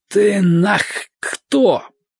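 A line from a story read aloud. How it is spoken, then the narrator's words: Hoarse wheeze. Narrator (Russian): просипел он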